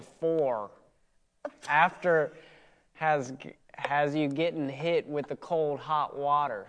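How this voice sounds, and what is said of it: Poor attempt at Southern accent. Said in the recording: “Can you try it with a Southern accent? ... I have the worst Southern accent whenever I try to do it.”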